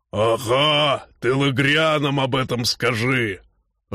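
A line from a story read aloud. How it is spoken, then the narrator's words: Growled. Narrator (Russian): рыкнул Норл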